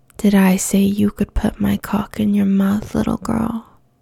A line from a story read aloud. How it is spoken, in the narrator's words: says in a low, dangerous voice